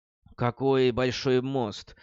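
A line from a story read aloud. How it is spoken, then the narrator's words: Sigh. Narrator (Russian): вздохнула Брис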